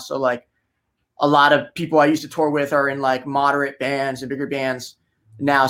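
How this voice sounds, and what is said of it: New Jersey accent. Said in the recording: “you can tell by your accent that you're from Jersey”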